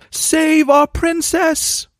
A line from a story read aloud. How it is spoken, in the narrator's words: they cried out